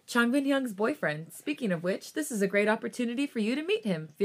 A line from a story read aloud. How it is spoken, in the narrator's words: Felix suddenly exclaimed, the sudden excitement flowing through him